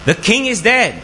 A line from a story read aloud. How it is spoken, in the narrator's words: the palace official shouted